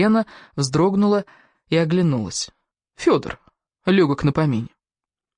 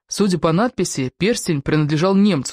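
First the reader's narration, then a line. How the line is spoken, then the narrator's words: Plain. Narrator (Russian): сказал Анатолий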